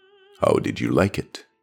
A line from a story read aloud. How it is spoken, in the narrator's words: he asked softly, in Cordes